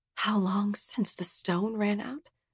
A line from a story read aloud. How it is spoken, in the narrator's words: She asked quietly, to no one in particular